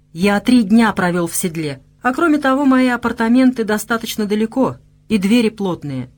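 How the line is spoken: Calm reply. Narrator (Russian): спокойно ответил Вышемир

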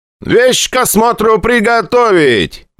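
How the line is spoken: Shouted. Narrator (Russian): крикнул приехавший прапорщик

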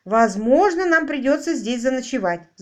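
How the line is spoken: Breathless shout against wind. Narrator (Russian): задыхаясь от ветра, крикнул Буши

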